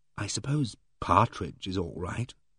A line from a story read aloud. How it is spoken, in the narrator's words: said, lowering my voice